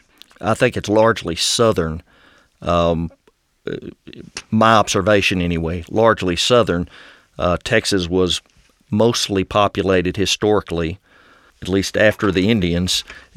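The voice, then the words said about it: West Texan accent. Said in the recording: “I would describe my accent as West Texan.”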